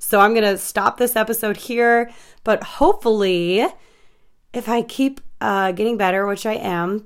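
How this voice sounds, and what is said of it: Slightly hoarse voice. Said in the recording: “my voice is getting a little bit hoarse”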